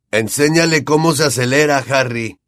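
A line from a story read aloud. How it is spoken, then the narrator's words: Shouted while speeding past. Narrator (Spanish): le gritó Fred al pasar velozmente por su lado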